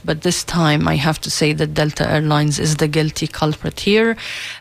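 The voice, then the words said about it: Congested voice from a cold. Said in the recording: “I have a cold. ... So it's just a cold, not a bronchitis this time.”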